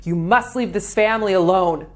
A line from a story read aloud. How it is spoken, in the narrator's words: She yelling